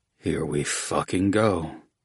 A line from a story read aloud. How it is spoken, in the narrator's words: Oates grumbled